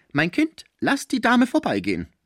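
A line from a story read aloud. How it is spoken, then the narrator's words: Calling out. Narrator (German): rief Madame Chapoulot ihrer Tochter zu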